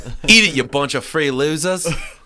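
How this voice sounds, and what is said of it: Poor put-on Australian accent. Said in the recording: “getting that fucking Australian accent right in there. And, that's not even close ... that is some fucking terrible shrimp on the barbie accent”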